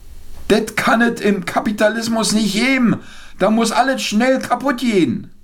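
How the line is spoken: Old father calling out. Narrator (German): mein alter Vater rief

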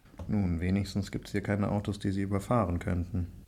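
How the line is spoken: Murmur. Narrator (German): murmelte Viktor

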